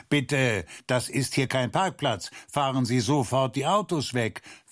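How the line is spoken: Neighbor calling across. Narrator (German): Der drüben Nachbar rief auch zu ihnen herüber

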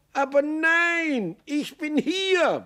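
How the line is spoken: Bellowing. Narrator (German): brüllte Maxl

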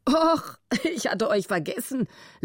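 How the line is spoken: Amused laughing. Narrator (German): lachte er, halb grinsend vor Vergnügen, als er die mühsame Positur des Müffert sah

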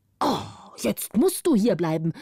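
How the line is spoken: Angry old man shouting. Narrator (German): rief der Alte zornig

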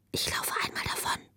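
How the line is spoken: Whisper. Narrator (German): flüsterte sie ihr zu

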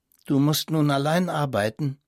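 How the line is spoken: Plain. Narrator (German): sagte sie

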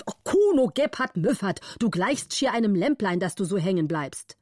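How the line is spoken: Angry call. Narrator (German): war zornig und rief

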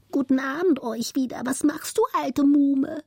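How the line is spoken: Fine whistling voice. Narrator (German): pfiff die zweite Ratte mit feiner Stimme

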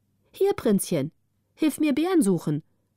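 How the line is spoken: Calling from behind tree. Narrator (German): rief die eine hinter einem Baum hervor

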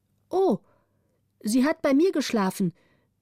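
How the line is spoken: Calling out. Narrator (German): rief die Waise

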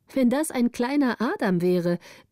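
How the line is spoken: Exclaimed. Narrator (German): rief Greta

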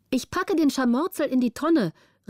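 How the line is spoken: Call. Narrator (German): rief Petrina

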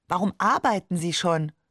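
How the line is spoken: Plain. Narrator (German): fragte ich

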